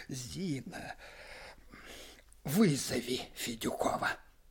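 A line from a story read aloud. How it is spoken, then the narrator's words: Dull, muffled voice. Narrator (Russian): сказал глухо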